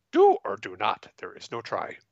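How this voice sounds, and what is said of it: Yoda character voice impression. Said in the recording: “best Yoda impersonation ... my Yoda impersonation ... Very well done.”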